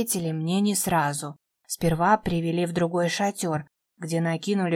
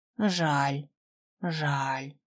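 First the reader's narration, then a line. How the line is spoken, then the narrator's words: Dejected sigh. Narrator (Russian): выдохнула уныло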